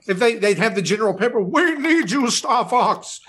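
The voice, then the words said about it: Impression of Star Fox general. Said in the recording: “That's a really good impression, by the way.”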